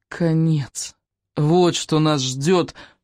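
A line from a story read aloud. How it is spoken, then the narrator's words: Groaned. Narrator (Russian): простонал Икинг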